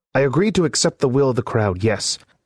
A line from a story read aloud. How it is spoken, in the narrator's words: snapped Byron